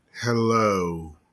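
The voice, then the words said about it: Sultry, menacing radio voice. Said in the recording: “radio voice ... It sounds somewhere in between like sultry and terrifying.”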